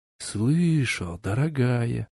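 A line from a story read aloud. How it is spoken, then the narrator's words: Lover whispering in ear. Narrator (Russian): зашептал на ушко любовник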